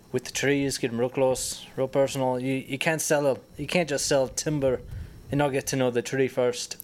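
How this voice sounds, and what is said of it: Light Irish accent. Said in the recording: “my father came over from Ireland ... picked a wee bit of the accent”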